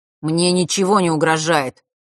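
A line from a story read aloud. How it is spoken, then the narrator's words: Slightly irritated. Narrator (Russian): немного раздраженно произнес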